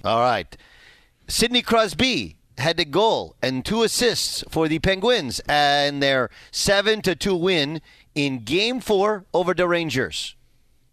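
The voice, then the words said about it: Put-on French-Canadian accent. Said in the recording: “It's my French-Canadian accent ... That's really good. I like it. I like it.”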